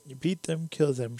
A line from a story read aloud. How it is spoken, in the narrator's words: she cried frantically